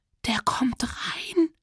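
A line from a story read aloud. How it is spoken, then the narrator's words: Quiet panicked squeak. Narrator (German): quietschte, so leise man panisch quietschen konnte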